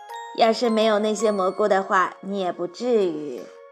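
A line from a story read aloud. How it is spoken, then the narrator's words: Guilty muttering. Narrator (Chinese): 贝里奥知道是自己做错了事，嘀咕着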